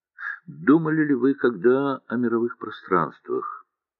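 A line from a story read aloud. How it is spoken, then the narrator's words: Quiet. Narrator (Russian): негромко сказал Андрей Андреевич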